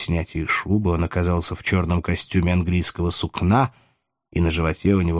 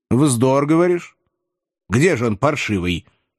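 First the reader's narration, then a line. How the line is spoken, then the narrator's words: Stern, curt question. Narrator (Russian): строго и отрывисто спрашивал господин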